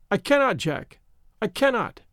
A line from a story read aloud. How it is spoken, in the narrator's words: she cried